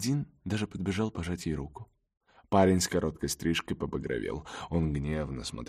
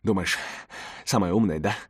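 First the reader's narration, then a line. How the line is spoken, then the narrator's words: Young man hissing. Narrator (Russian): прошипел парень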